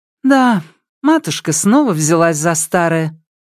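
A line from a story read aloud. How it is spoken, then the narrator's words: Sighing. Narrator (Russian): Лидия вздохнула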